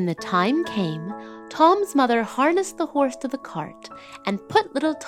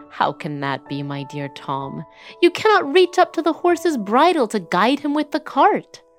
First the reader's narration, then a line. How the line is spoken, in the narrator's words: the woodworker laughed and said